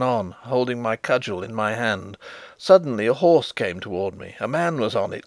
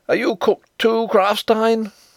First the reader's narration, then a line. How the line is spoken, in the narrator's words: he cried